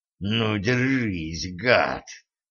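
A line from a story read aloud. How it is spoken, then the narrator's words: Rasping, wild fury. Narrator (Russian): прохрипел Денис, которого почему-то обуяла неприсущая ему дикая ярость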